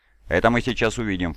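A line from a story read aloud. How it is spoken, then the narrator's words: Snort. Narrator (Russian): фыркнул Хорус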